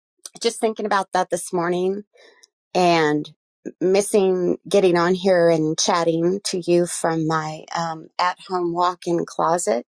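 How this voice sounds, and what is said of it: Voice strained from sinus illness. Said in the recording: “came down with sinusitis. So really didn't even have my voice for about 3 weeks. And I'm still struggling with that a little. So you could probably hear that in my voice.”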